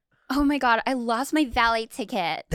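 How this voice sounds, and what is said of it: Imitating a white girl's voice. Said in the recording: “That really sounds like... When I close my eyes, I literally see like a white chick.”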